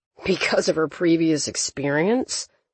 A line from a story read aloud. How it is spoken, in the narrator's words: Toby muttered